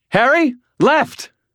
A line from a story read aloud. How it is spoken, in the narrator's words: Murphy screamed